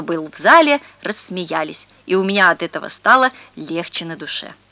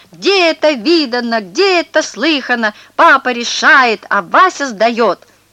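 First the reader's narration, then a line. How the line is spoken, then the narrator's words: Eager shouting. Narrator (Russian): Я сразу подхватил и прокричал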